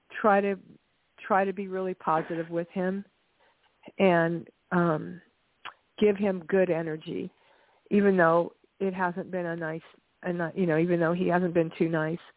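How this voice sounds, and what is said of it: Congested voice with a cold. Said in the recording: “I'm sorry, I have a cold.”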